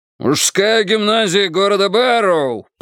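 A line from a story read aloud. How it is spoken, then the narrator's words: Triumphant shout. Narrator (Russian): прокричал он, словно только что забил гол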